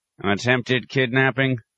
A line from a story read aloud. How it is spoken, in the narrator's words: one officer grunted to the other